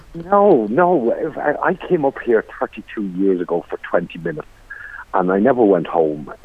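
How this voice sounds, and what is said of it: Irish County Limerick accent. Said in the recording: “That's not a County Down accent ... is a County Limerick accent.”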